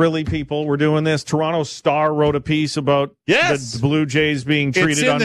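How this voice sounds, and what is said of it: Usual voice. Nothing is said of it.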